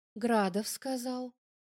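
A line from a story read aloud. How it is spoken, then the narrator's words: Calm. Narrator (Russian): спокойно говорит Ланская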